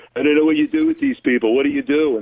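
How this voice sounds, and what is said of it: Imitates another person's voice. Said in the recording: “it's a good impersonation”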